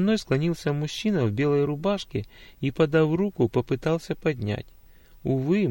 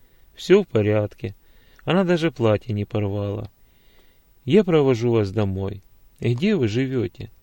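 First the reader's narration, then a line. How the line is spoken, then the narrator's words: Calm. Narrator (Russian): спокойно сказал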